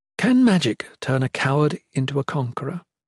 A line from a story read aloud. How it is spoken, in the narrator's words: The Shalane asked the nearby Aethon quietly, hoping to avoid the prying ears of Dayson